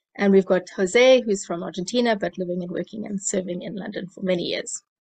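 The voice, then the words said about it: South African accent. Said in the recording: “I'm from South Africa. That's the accent.”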